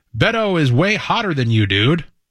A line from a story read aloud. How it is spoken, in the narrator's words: one called out